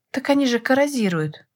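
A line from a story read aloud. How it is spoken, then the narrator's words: Exclaimed. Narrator (Russian): воскликнула я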